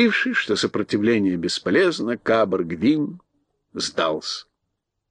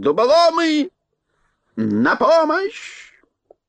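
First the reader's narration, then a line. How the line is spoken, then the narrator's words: Furious yell. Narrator (Russian): Кабр Гвин бешено заорал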